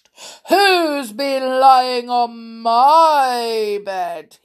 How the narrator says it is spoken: he growled

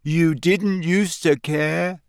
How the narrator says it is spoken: said Myrtle miserably

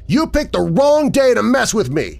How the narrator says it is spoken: yelled out

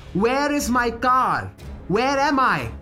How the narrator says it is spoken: I start yelling

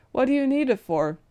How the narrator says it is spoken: timidly asks

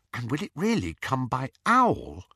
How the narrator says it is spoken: Lily whispered

